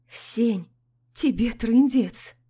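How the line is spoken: Quiet remark. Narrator (Russian): выдает Аля тихо

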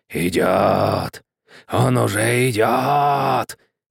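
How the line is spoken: Moan with chattering teeth. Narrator (Russian): простонал скелет, клацая зубами

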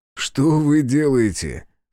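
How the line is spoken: Short laugh. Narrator (Russian): хохотнул Азар

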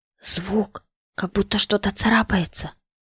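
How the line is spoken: Woman whispering. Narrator (Russian): прошептала она

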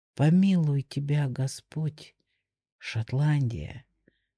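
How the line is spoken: Quiet. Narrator (Russian): сказал он тихо

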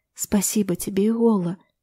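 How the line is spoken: Whispering. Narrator (Russian): шептала она

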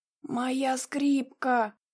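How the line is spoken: Weak hoarse rasp. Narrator (Russian): прохрипел Гаганини, не в силах оторвать голову от земли

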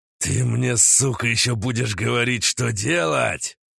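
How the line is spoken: Angry growl. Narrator (Russian): прорычал Уран

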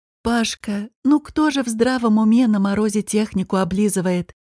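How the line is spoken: Sighing. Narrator (Russian): вздохнула Елена Степановна

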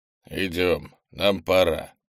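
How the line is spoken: Grumbled. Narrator (Russian): проворчал он

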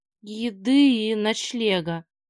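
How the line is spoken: Hoarse reply. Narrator (Russian): хрипло ответил Иван

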